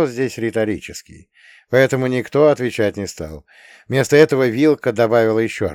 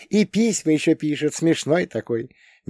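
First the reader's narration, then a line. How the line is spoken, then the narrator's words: Melodic giggle. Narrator (Russian): мелодично хихикнула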